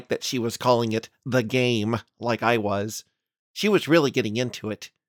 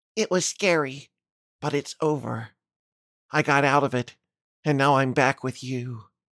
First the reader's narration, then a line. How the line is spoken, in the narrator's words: happily replied